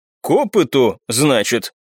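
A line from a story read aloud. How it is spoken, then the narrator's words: Thoughtful drawl. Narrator (Russian): Задумчиво протянул Иван Михайлович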